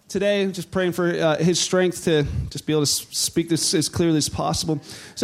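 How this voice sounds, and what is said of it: Hoarse voice from a cold. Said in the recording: “My voice is a little messed up. I beat a man cold this week.”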